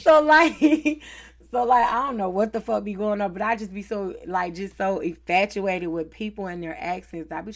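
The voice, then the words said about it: Southern American accent. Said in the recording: “I like your southern accent”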